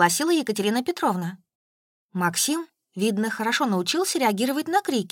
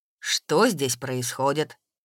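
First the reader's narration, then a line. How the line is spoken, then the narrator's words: Angry question. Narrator (Russian): Сердито поинтересовался он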